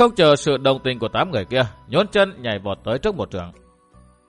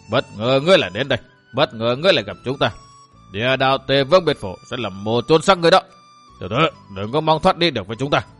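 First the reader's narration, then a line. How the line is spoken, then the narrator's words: Provoking laugh. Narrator (Vietnamese): Y bật cười gây giận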